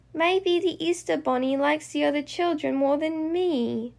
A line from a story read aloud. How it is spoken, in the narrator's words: says Bingo sadly